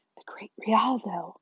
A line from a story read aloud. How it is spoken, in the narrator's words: Fern whispered in awe